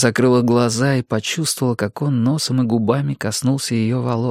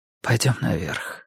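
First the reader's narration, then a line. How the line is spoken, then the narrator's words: Whisper. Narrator (Russian): прошептал он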